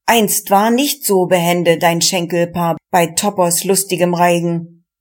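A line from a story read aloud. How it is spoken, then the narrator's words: Called. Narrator (German): rief der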